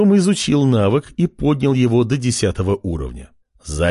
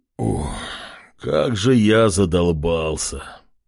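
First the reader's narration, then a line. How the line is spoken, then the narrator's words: Moaning. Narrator (Russian): Простонав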